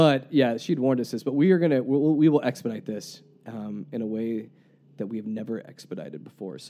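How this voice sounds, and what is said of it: Usual voice. Nothing is said of it.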